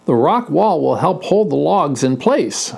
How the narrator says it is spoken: said Henry

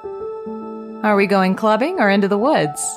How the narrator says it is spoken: I giggled feeling awkward

